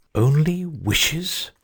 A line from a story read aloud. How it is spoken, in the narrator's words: repeated the phoenix, angrily